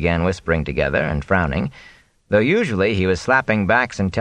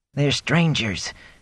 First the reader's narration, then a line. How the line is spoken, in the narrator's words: Gelb pleaded, quietly and with an eye out for the captain